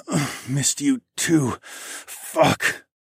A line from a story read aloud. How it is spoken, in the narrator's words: I grunted when I bottomed out